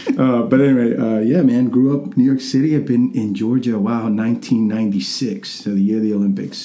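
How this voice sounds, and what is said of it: Middle American English accent. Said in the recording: “I've lost my accent completely... I have like more of a middle America accent”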